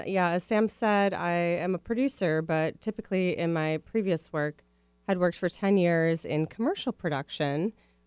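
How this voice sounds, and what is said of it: Midwestern American accent. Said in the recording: “my Midwest a- accent will probably come out just as a heads up. I just said, oh gosh.”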